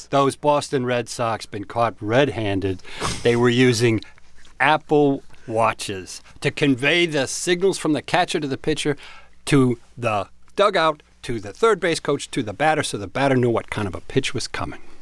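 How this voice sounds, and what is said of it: Put-on Boston accent. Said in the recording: “Was that a Boston accent?”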